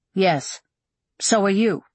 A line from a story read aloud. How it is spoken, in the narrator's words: he said, sounding stiffly polite